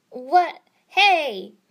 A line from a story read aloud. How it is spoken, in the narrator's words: Naruto shouted